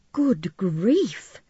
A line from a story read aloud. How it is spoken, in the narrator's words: Chris exclaimed